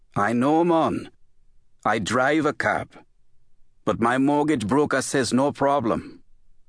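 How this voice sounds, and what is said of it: Caribbean island accent. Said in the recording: “with the island accent”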